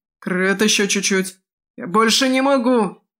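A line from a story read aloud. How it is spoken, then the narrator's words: Pained shout. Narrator (Russian): закричал маг, корчась от боли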